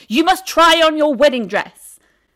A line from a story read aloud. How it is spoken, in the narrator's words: yelled